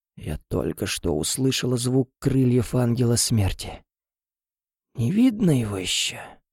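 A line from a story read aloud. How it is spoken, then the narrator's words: Hoarse mutter. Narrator (Russian): Хрипло пробормотала Шэрон и зашлась в приступе кашля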